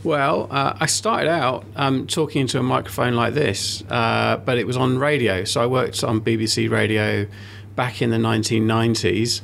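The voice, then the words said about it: Non-Australian English accent. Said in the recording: “my accent is obviously not at all Australian”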